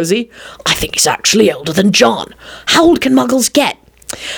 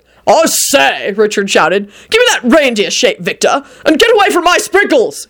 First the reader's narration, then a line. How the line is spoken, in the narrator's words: he bellowed at Shala